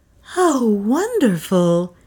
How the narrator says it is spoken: breathed

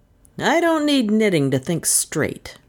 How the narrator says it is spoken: rasped Anderson indignantly

